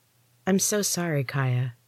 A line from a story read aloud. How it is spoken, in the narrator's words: I said softly